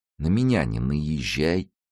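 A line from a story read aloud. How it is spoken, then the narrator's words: Very calm. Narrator (Russian): сказал он очень спокойно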